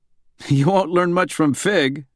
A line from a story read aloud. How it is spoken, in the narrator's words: Bradbury said with a chuckle